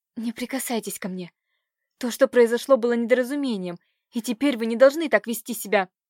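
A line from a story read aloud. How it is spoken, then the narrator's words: Stunned girl's hoarse rasp. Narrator (Russian): Оторопев от его наглости, девушка прохрипела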